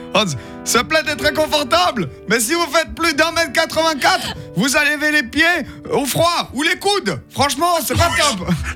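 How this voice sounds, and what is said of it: Put-on German accent. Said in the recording (French): “C'était sur un site allemand ... Faut que j'arrête cet accent, c'est pas possible.”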